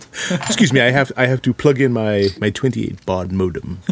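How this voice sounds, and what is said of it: Put-on British accent. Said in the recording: “I don't know why I did that with a British accent.”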